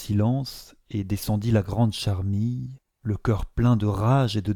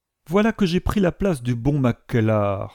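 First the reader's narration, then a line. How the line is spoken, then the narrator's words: Exclaiming. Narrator (French): s'écria-t-il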